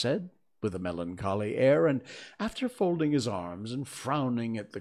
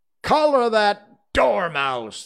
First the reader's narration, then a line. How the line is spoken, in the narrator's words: the queen shrieked out